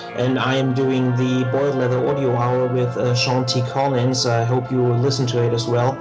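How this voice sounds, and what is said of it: German accent. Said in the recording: “geographically from Germany, with which you can hear from my accent”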